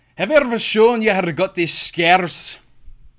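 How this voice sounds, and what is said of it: Attempted Scottish accent, Joker voice. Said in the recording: “I'm going to try my absolute hardest to do a Scottish accent, and well, as the Joker... Not terrible... It's pretty cringe”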